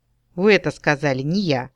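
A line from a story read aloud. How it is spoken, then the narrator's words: Indifferent and calm. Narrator (Russian): чуть поморщившись, я ответила так равнодушно и спокойно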